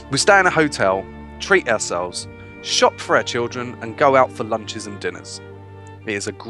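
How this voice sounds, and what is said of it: Usual voice. Nothing is said of it.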